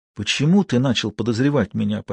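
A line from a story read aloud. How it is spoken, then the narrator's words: Near-whispered question. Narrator (Russian): почти шепотом спросил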